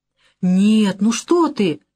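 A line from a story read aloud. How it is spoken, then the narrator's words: Exclamation. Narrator (Russian): воскликнул он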